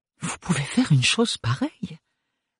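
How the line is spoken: Stammering. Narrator (French): balbutia-t-elle

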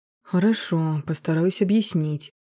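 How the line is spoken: Sighing. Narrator (Russian): вздохнул Ефим

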